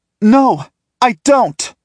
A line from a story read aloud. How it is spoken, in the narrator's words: She shouts